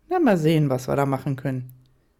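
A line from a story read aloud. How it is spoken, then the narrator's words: Hearty laugh, casual reply. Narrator (German): lachte herzhaft auf und antwortete salopp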